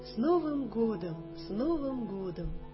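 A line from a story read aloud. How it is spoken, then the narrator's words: Cheerful chorus. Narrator (Russian): всем весело, все говорят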